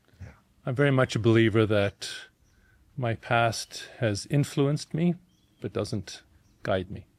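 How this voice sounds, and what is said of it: Mixed South African-European accent. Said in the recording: “You got a really funny accent ... grown up in South Africa to an Austrian father and a mother of English descent ... my accent reflects the journey I've been on. It's global.”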